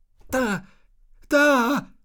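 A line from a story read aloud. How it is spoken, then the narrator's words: Calling out. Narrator (German): rief jemand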